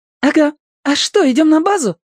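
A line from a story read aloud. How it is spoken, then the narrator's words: Joyful realization. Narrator (Russian): радостно догадался Рыжик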